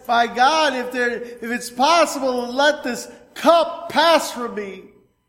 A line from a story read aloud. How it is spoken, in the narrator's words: Jesus cried in the garden, he said